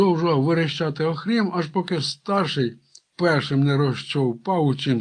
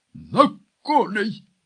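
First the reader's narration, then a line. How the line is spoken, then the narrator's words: Barked at top of lungs. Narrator (Ukrainian): гаркнув на всю горлянку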